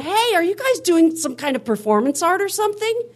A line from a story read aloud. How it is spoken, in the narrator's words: I hollered up and I said